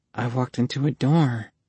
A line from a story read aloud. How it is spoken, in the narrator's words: she whispered